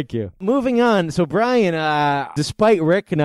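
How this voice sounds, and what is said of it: Usual voice. Nothing is said of it.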